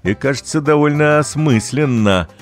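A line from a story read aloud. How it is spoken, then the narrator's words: Snorting father. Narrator (Russian): хмыкнул папа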